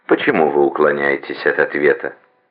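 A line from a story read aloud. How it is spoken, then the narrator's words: Calm relaxed tone. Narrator (Russian): Оба, и доктор, и дама в маске, говорили спокойным, непринужденным тоном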